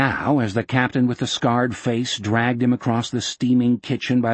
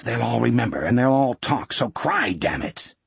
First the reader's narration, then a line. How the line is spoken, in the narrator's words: under his breath the captain hissed